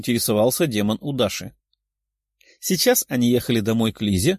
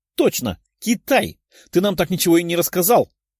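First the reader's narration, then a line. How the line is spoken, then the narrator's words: Exclaiming. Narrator (Russian): воскликнула Лиза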